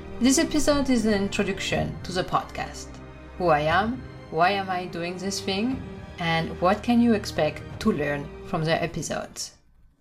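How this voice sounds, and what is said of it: Thick French accent. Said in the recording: “thick French accent”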